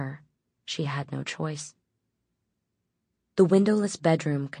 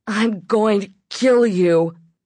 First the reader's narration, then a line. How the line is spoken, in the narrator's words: she yelled through the opening, her voice coming out slow and strange